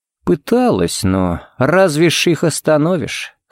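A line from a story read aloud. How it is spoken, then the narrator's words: Sigh. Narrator (Russian): Харри вздохнул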